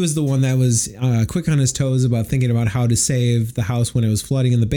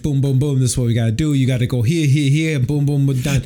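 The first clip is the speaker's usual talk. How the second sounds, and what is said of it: Put-on Jersey tough-guy accent. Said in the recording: “he throws on this Jersey accent ... I thought it was the New York tough guy”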